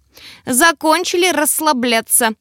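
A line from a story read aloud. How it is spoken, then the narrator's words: Elf yelling. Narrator (Russian): заорал эльф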